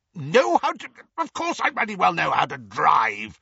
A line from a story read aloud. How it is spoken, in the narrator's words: spluttered Uncle Vernon